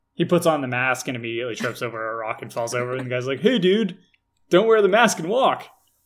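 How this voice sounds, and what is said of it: Californian accent. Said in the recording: “all your voices are just different variations ... I have one voice. ... It's California. ... It is California, guy. I can just go more California or less California”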